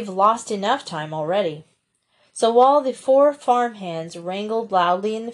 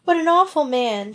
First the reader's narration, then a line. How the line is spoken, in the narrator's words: she wailed